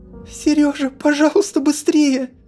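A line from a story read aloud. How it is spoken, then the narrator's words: Sudden pleading. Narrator (Russian): Вдруг взмолилась Ольга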